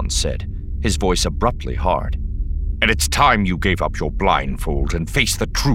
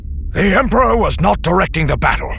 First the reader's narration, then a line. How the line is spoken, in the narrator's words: Pelion snapped, with a fire